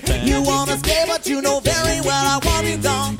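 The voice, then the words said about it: Sung impression of another person's voice. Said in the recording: “my Louis Armstrong impersonation ... the little impression”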